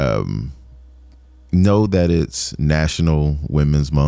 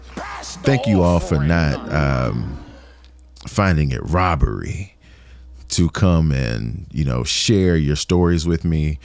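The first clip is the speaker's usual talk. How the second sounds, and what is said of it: Preacher-style pulpit delivery. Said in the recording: “let me get in my pulpit voice.”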